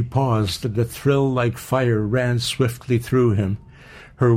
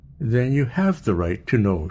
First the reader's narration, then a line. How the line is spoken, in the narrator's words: calmly interrupted